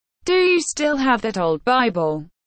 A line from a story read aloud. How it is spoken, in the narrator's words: asked William Crome